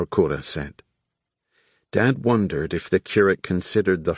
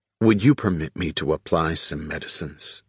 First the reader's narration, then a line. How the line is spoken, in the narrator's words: Frank Herbert asked